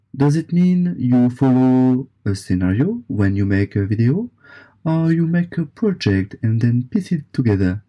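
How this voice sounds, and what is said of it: Speaker's own foreign accent. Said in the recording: “how was my accent? Better? ... you sound delightful. ... don't ever try to change your accent for us.”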